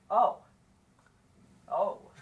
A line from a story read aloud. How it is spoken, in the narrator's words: He muttered